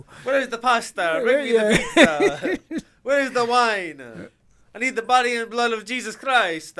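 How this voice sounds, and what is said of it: Stereotypical Italian accent. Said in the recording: “we all have a stereotypical Italian accents”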